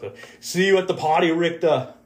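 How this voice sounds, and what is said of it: Arnold Schwarzenegger impression. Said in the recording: “hear my Arnold Schwarzenegger impression”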